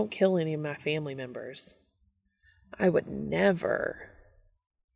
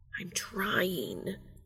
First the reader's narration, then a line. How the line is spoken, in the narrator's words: Castiel hisses